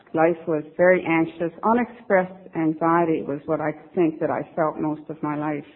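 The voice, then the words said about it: Newfoundland accent. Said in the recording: “I don't know if you can hear this in my accent, but I'm a Newfie.”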